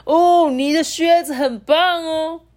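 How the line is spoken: Shouting after someone. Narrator (Chinese): 募款人 又对着离去的小鳄鱼大喊说

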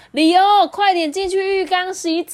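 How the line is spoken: Shouting. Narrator (Chinese): 妈妈 边喊说

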